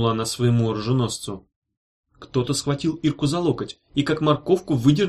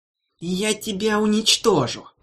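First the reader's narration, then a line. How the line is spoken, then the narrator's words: Hissed threat. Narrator (Russian): прошипел кто-то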